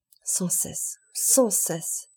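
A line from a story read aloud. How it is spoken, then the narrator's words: Priest murmuring. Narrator (French): murmura l'abbé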